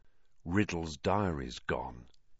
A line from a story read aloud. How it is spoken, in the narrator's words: said in an undertone to Ron